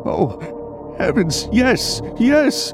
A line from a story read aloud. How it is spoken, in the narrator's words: Evan cried